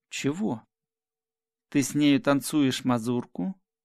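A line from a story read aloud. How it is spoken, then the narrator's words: Solemn question. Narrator (Russian): спросил он торжественным голосом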